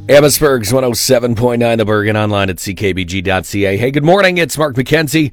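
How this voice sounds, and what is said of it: Hoarse, fading sick voice. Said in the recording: “am I losing my voice in July? How am I getting sick in July?”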